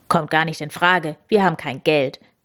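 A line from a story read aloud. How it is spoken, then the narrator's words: Curt, brusque. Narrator (German): sagte Papa Mauskowski schroff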